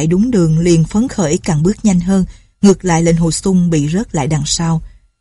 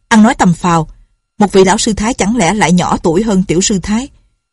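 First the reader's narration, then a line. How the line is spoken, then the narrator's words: Sharp shout. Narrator (Vietnamese): Lệnh Hồ Xung quát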